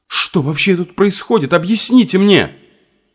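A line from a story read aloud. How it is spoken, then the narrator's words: Nervous, almost shouted. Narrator (Russian): Я так нервничала и ждала этого разговора, что невольно почти прокричала эти слова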